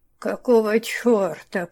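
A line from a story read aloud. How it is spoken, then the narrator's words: Hoarse. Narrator (Russian): прохрипела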